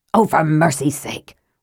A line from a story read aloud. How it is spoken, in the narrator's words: Raistlin snapped